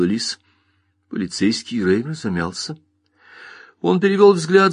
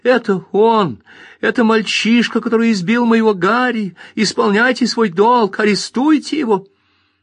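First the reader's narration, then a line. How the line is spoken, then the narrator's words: Shouting woman. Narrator (Russian): Мэри Дулин закричала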